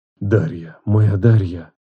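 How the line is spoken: Muttering. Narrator (Russian): бормотал он

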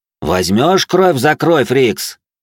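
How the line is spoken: Shouted. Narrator (Russian): крикнул я ему

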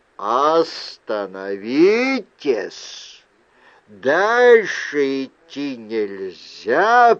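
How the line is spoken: Thunderous booming voice. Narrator (Russian): прогремел оттуда громоподобный голос

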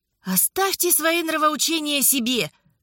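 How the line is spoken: Hired worker exclaiming. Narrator (Russian): воскликнул один из наемных работников

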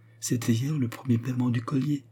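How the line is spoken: Timid. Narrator (French): dit Bummer timidement

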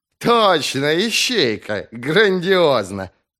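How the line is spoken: Soft chuckle. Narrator (Russian): Принц негромко хохотнул

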